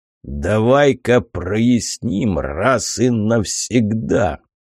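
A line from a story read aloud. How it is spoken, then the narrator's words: Growled into face. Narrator (Russian): прорычал в лицо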